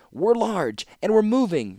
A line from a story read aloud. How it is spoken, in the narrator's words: replied Tokasia, screaming above the wind